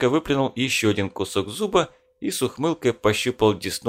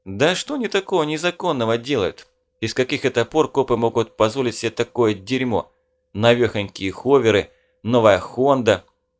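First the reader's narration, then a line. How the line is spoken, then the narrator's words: Wet, bloody snort. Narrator (Russian): Он хмыкнул сквозь пленку слюны и крови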